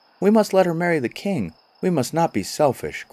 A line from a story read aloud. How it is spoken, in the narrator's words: cried all the dwarfs together